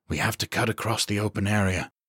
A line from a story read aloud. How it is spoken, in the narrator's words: he breathed the words as quietly as he could